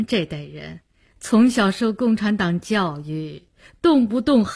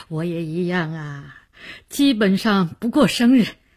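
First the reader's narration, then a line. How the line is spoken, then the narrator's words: Smiling. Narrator (Chinese): 梅启良笑笑说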